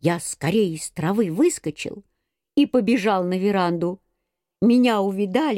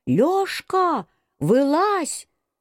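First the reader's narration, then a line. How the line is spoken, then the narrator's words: Shouting, woman. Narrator (Russian): закричала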